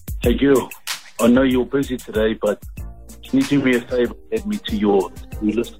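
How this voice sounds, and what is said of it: New Zealand accent. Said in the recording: “the New Zealand accent is the hottest ... how sexy your accent is”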